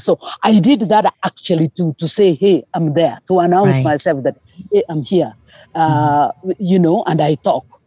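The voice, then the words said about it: Speaks with a foreign accent. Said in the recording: “I'm speaking with an accent”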